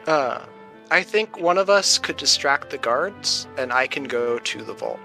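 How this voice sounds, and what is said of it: Lowered, quieter voice. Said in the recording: “I lower my voice a little bit so no one can hear”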